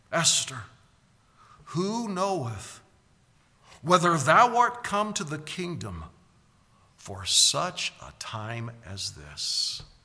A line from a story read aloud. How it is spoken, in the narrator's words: Mordecai pleaded with her